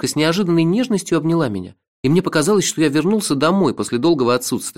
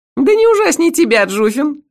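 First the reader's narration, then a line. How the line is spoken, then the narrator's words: Laughing loudly. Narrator (Russian): расхохоталась леди Сатофа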